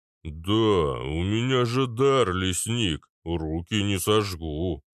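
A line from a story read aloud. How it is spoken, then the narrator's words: Booming giant. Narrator (Russian): прогудел гигант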